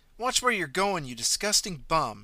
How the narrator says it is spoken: spat

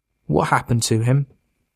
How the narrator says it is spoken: Mitch asked in a calm and reasonable voice

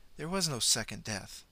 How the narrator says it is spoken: Miss Ella interrupted softly

